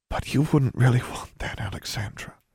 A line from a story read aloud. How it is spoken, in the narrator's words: she whispered in her sister's ear